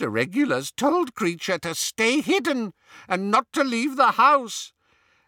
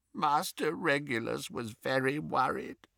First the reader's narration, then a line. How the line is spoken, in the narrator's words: croaked Creature